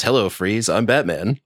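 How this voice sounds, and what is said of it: Imitates another person's voice. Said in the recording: “pretty good crown Clunes impression”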